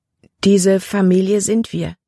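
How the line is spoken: Plain. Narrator (German): fragte Libby

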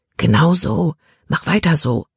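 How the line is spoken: Quiet voice. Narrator (German): sprach Caleb mit leiser Stimme

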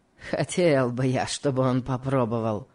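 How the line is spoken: Malicious smirking. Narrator (Russian): сказал Легри, злобно усмехнувшись

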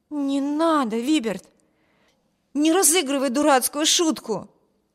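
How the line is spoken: Exclaimed. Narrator (Russian): воскликнула Эми

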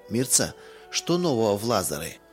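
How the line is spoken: Plain question. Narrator (Russian): спросила тетя Лиза

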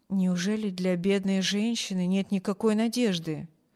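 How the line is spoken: Quiet question. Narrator (Russian): тихо спросил хозяин мисс Корта, чтобы не слышала больная

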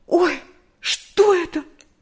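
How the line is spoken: Frightened cry. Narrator (Russian): В испуге вскрикнула Нэнси

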